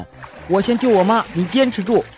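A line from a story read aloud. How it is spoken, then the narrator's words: Shouting. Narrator (Chinese): 强子大喊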